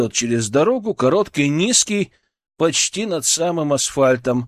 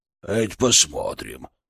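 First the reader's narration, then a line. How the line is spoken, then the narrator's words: Curt mutter. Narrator (Russian): буркнул Ворон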